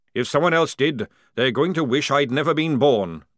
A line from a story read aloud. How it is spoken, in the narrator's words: growled Jackram